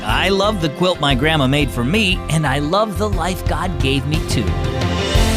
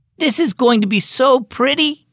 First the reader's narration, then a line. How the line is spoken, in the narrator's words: Emily exclaimed